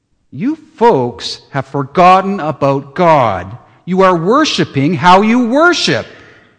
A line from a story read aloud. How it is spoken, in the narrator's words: He might just scream